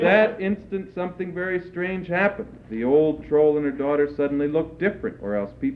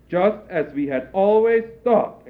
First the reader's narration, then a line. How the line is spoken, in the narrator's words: exclaimed the crowd